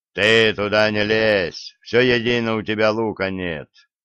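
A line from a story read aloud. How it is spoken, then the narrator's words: Deep chesty bass, monster. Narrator (Russian): Грудным голосом Радула пробасило другое чудище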